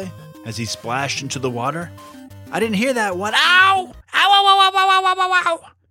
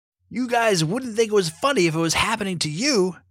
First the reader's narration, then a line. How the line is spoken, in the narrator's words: shouted Vale